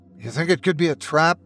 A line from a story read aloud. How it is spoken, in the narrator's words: He asked nervously